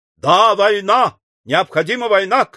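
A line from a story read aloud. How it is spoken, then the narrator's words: Ardent shout. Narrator (Russian): крикнул пылкий Мастон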